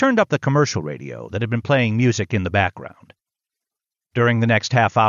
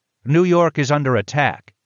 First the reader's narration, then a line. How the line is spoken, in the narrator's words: the man on the other end of the radio exclaimed